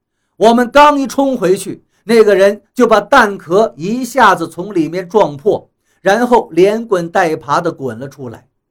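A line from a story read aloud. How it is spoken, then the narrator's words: Loud shouted command. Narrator (Chinese): 大声地冲他们喝道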